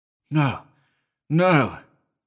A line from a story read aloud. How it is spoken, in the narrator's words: I cried vehemently